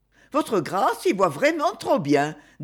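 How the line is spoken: Cheerful old woman. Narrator (French): dit gaiement la vieille demoiselle

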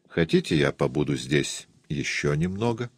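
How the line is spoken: Gentle question. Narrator (Russian): Доктор Освальд мягко спросил меня

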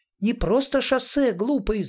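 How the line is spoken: Tearful shout. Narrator (Russian): закричала Галя, и ее прекрасные зеленые глаза налились слезами

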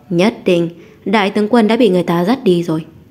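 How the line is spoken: Laughing loudly. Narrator (Vietnamese): Hình Nhạn Lai cười lớn nói

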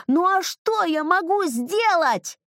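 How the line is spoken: Shouting with full force. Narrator (Russian): я закричал изо всех сил

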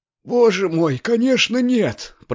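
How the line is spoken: Hoarse rasp. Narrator (Russian): прохрипела госпожа Бенсусон

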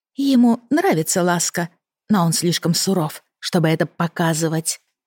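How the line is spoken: Sly whisper. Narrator (Russian): прошептала лукаво

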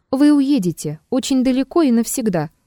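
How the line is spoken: Plain. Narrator (Russian): сказал Триродов

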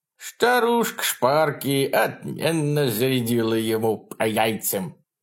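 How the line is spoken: Giggling toothless old mutter. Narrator (Russian): старуха, хихикая, пробормотала беззубым ртом

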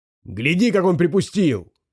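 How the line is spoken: Shout. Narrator (Russian): прокричал Джинго

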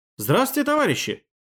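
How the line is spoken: Cheerful greeting. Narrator (Russian): бодро поздоровался я

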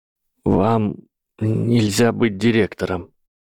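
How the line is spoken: Strained, burning throat. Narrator (Russian): выдавил Гарри сквозь жжение в горле

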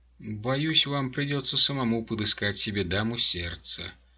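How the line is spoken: Soft. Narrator (Russian): мягко сказала Глория

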